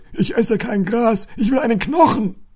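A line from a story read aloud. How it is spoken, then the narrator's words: Indignant dog calling out. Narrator (German): rief der Hund empört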